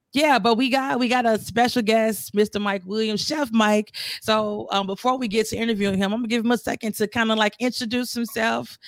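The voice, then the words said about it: Slightly hoarse voice. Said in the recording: “I'm a little hoarse. I was singing all weekend”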